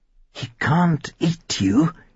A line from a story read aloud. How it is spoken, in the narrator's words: he muttered to himself